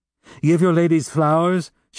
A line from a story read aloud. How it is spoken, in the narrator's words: she cried